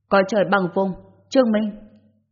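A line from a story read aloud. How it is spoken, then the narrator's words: Stern roar. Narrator (Vietnamese): Quan Lập Thành, nghiêm nghị gầm lên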